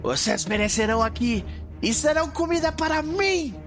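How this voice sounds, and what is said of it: Shouting monster character voice. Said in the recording (Portuguese): “Ele grita. Sempre que ele fala, ele tá gritando.”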